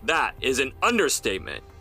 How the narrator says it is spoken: Jefferson snapped

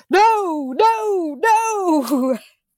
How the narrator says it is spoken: Jessica's mind screams

